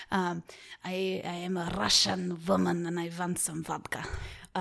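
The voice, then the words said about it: Bad put-on Russian accent. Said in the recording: “I have a Russian accent that I can really only say one sentence ... That was very bad. Borderline offensive.”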